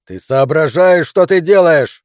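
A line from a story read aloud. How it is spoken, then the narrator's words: Yelling. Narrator (Russian): заорал он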